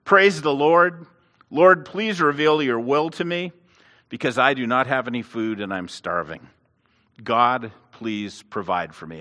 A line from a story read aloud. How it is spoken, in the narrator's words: the lady shouted